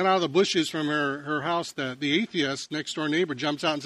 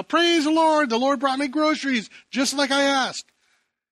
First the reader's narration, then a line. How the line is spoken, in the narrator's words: she shouts out